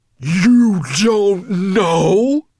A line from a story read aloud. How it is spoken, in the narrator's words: Nettlebrand bellowed so loud